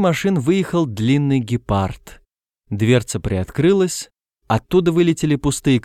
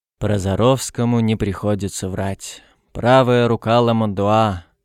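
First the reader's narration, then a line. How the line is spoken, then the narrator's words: Deep sigh. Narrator (Russian): он глубоко вздохнул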